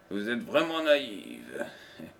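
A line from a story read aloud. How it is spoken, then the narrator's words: Sneering. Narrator (French): ricana-t-il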